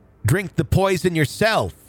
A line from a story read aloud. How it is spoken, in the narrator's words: Burley yell